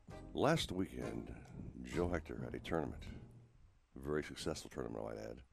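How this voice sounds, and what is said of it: Golf TV announcer impression. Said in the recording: “my best golfing impression ... because I'm now dressed like Jim Nance”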